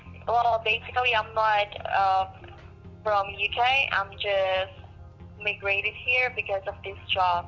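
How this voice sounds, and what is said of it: Noticeable foreign accent. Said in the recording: “you have such an interesting accent. Where are you from originally?”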